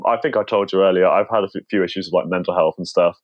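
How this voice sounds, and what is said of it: British accent. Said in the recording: “I'm from the UK, which explains the accent”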